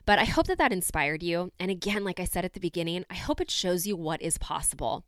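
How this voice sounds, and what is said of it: Congested voice with a cold. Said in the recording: “I was a little bit under the weather ... I have a little bit of a cold, so I apologize if my voice sounds just a little bit different than it normally does”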